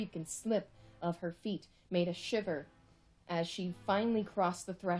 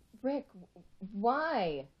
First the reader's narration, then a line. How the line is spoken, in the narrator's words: Summer stammered